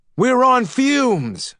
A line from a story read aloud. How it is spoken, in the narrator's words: Gray shouted